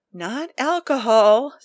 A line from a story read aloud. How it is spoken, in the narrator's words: Steve said with a faint sigh